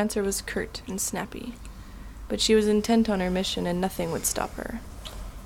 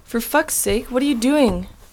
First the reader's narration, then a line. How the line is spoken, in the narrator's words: shouted angrily